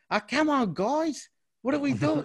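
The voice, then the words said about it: Exaggerated broad Australian accent. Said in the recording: “I can't stand that full ocker Australian accent, man. Like... She overdoes ... intentionally overdoes it”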